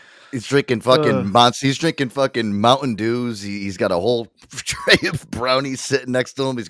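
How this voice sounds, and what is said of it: Usual voice. Nothing is said of it.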